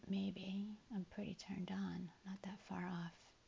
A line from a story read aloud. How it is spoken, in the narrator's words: whisper back